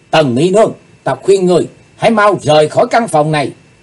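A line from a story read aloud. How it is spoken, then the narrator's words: Sudden shout. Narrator (Vietnamese): Bỗng Chí Tôn hét lên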